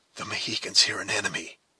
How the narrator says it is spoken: whispered Hawkeye

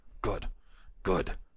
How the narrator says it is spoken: Torkelson breathed

